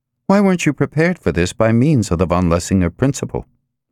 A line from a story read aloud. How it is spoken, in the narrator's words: Nicole asked sharply